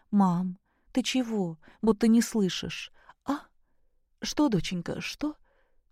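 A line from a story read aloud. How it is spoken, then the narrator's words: Startled, frightened. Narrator (Russian): Встрепенулась Любовь Сергеевна испуганно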